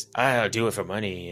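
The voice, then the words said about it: Put-on pirate accent. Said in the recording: “I don't know why I keep giving him a pirate accent. It's just my go-to.”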